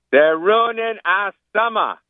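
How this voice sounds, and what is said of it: Boston accent. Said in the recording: “in that Boston accent ... Yeah, that's beautiful.”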